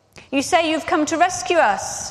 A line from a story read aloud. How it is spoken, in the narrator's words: people shouted